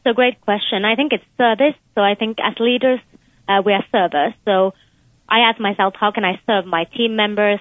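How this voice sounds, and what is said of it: Slight Finnish-tinged accent. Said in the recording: “You have a bit of an accent. ... I was born in Finland, but I also spent some of my childhood in the UK.”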